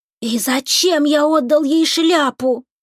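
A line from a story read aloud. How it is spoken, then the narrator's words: Exclaimed. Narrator (Russian): воскликнул ветер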